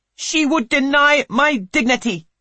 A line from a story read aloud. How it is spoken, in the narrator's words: snaps Polly